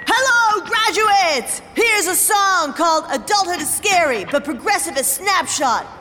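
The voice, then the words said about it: Rock band frontman stage voice. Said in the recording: “my impression of a geographically challenged rock band delivering a commencement speech”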